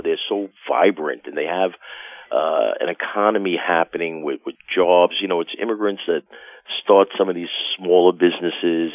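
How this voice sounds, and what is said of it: New York accent. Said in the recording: “if you can't tell by my accent, I've lived in New York my whole life”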